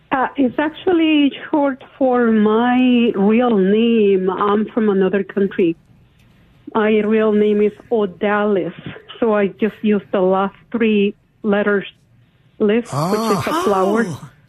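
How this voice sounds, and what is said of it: Eastern European accent. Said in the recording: “your accent sounds East European”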